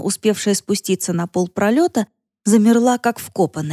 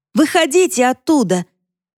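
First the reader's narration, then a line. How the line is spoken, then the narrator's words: Shouting. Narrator (Russian): Яна, кажется, снова кричала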